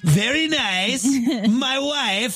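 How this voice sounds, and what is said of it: Borat impression, Kazakh-style accent. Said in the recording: “busted out a Borat ... A fun accent.”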